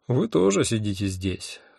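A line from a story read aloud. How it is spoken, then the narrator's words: Sighing. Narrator (Russian): вздохнул я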